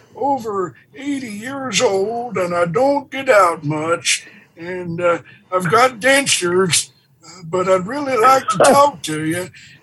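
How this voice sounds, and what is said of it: Elderly man's voice. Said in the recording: “I can talk in an elderly man's voice ... I put on this old man voice”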